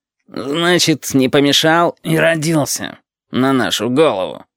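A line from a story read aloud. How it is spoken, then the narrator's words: Grumbling. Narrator (Russian): ворчал темно-красный шарик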